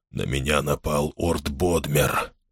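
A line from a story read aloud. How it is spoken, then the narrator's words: Whispered. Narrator (Russian): прошептал он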